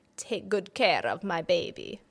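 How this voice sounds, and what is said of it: Put-on accent. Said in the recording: “Oh, accent work as well.”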